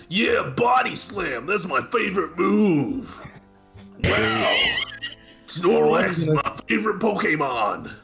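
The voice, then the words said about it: Imitates another person's voice. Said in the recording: “you just hear Hulk Hogan ... You do that so well.”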